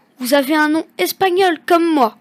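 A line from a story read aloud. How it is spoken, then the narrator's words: Exclaimed. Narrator (French): s'exclame Pablo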